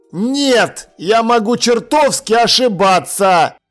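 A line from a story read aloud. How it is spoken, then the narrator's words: Shouted. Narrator (Russian): прокричал он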